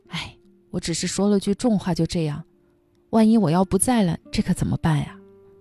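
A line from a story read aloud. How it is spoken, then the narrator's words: Angry reproach. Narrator (Chinese): 三毛生气的责怪荷西说话不吉利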